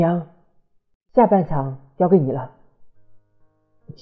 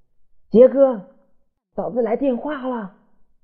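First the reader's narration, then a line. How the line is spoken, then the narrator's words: Sudden loud shout. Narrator (Chinese): 他忽然大声喊道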